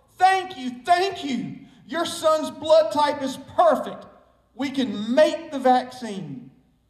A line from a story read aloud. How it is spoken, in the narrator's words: doctors yelling